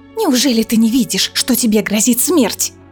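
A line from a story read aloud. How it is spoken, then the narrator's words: Hissing. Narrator (Russian): Прошипела Манона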